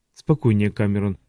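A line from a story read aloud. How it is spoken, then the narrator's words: Muttered. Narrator (Russian): пробормотал Вульф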